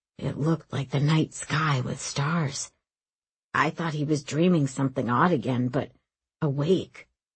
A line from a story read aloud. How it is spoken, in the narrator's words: Ozone murmured